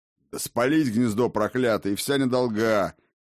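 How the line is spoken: Deep bass voice. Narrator (Russian): пробасил преска Скожемяка

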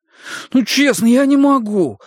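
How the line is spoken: Pleading. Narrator (Russian): взмолился Деннис

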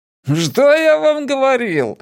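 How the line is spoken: Joyful singsong. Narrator (Russian): радостно пропел Джеспер

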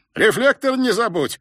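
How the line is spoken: Distant shout from indoors. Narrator (Russian): крикнул Феликс накачанному балбесу откуда-то изнутри из кондиционированной прохлады дома

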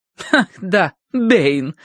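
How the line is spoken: Snorting. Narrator (Russian): фыркнула хозяйка

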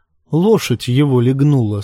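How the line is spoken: Plain. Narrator (Russian): сказал лорд Рамси

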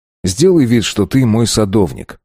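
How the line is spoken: Plain. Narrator (Russian): сказал я

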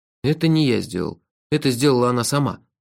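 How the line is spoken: Sigh. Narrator (Russian): вздохнул я

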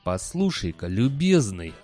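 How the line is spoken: Growling. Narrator (Russian): зарычал декан

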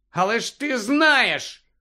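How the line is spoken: Shout. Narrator (Ukrainian): крикнув Гаррі

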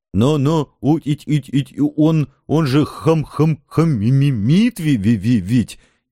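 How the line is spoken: Stuttering near-howl. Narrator (Russian): Едва не взвыл заикающийся Еремеевец

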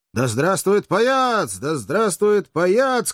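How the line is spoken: Cheerful crowd shouting. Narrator (Russian): кричали одни, весело

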